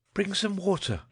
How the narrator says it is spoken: she cried

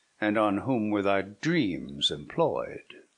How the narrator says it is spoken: said the friar, sternly

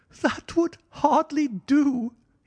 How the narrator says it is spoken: he cried

